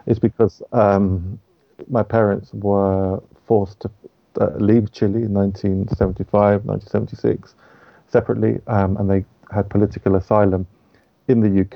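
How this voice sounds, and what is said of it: English accent. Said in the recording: “speak with an English accent”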